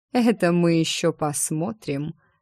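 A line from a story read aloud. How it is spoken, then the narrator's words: Hmphed. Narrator (Russian): Ремир хмыкнул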